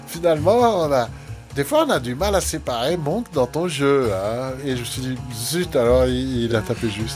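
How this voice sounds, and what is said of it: Poorly imitated Swiss French accent. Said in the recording (French): “je fais mal son accent suisse”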